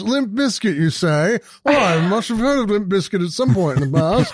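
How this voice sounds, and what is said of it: Imitates another person's voice. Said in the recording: “I put in my George Plimpton voice”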